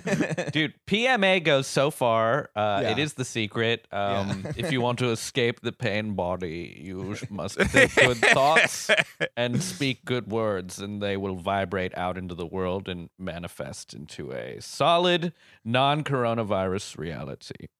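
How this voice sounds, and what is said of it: Put-on accent. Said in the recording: “I love accent ... I wish I could keep one consistently, though. It really, it just flows.”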